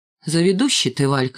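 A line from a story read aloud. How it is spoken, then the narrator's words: Plain. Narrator (Russian): сказал лохматый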